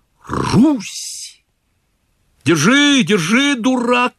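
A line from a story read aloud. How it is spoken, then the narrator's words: Shouting. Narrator (Russian): кричал Чичиков Селифану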